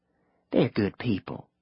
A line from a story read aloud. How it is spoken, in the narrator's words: Pearl said under her breath, as if the Mexican spoke English and might be offended by something nice she said